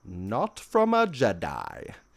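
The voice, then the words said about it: Impression of Ian McDiarmid's Palpatine. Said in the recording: “best Ian McDermott impression”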